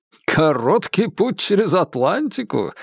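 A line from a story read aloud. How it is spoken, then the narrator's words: Laughing. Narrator (Russian): рассмеялся он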